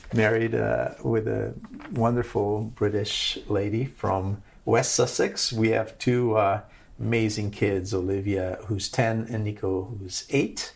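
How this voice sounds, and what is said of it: Slight American accent. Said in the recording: “I'm Portuguese, but I've lived all over. I've lived in 9 countries. Learned my English in the U.S., in Ohio, hence the slight American accent.”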